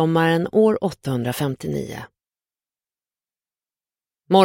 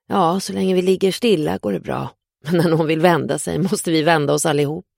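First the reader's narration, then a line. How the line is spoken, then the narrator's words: Laughing. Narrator (Swedish): skrattar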